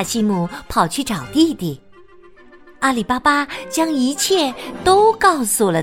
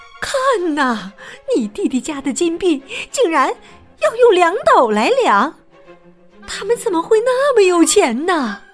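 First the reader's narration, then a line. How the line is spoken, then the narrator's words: Exclaiming. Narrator (Chinese): 她对丈夫卡西姆叫道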